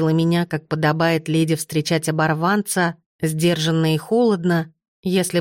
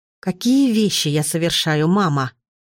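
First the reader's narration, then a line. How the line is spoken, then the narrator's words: Asked through gritted teeth. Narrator (Russian): сквозь зубы спросила я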